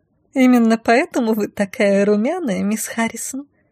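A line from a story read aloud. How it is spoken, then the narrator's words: Giggling. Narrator (Russian): хихикнула подошедшая шатенка, кажется, Мирьям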